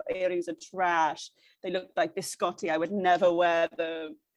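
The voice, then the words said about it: Thick put-on Italian accent. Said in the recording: “with this really thick, like Italian accent”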